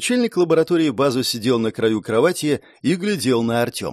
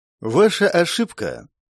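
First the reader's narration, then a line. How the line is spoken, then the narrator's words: Calm. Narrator (Russian): Спокойно начал Артем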